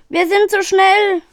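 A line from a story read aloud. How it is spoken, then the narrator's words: Calling out. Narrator (German): rief Edgar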